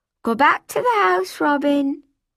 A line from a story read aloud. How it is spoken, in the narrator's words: called out